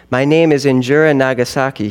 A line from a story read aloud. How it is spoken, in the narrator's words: he said